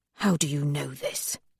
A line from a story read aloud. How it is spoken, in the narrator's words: He whispers